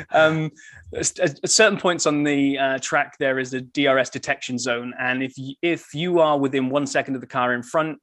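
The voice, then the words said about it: British accent. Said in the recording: “At least it sounded so in your British accent”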